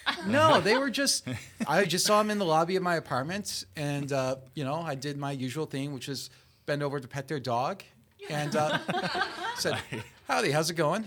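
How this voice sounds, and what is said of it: Wisconsin Midwestern American accent. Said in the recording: “people tried to guess my accent ... someone thought I was Australian ... that accent, are you Australian by any chance? ... No, I'm from Wisconsin”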